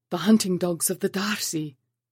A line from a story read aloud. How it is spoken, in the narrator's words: gasped